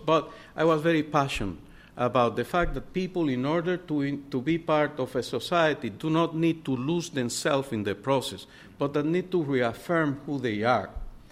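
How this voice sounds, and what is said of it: Speaker's own noticeable accent. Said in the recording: “If you can see my accent now, you can imagine in the 70s. So very difficult for me to understand myself”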